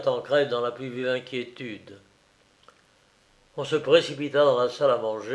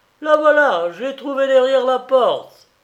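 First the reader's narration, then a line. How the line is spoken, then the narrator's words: Exclaimed. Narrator (French): quelqu'un s'écria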